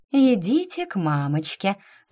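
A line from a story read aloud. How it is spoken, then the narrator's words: Falsely sweet tone. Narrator (Russian): притворно сладким тоном заговорила я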